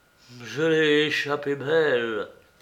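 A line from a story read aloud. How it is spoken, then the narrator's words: Terrified murmur. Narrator (French): murmura Martial avec une sorte d'épouvante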